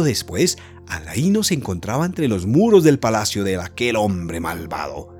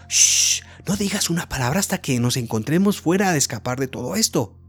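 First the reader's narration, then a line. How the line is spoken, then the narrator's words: Whispered. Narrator (Spanish): susurró Aladino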